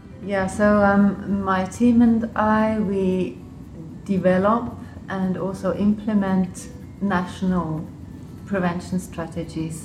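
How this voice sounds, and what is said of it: English-sounding accent. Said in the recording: “my accent is probably quite English”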